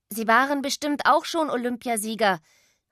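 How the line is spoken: Calling after someone. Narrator (German): rief hinter ihm her

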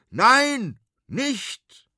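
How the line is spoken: Shouting from window. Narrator (German): schreit der große Konrad aus dem Fenster

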